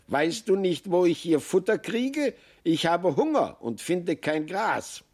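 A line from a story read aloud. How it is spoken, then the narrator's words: Marmot calling out. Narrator (German): rief das Murmeltier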